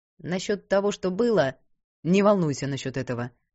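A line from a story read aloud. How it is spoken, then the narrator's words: Sharp interruption. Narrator (Russian): резко перебил он ее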